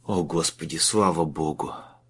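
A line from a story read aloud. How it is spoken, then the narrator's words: Relieved exhale. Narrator (Russian): выдохнул Майлз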